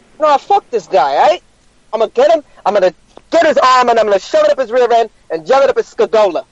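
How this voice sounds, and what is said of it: Put-on fake-sounding accent. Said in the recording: “Nice accent ... It's pretty good. It's way better than mine ... That's so Fugazi ... That accent”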